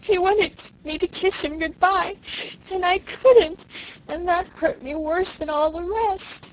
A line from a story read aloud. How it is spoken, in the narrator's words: I sobbed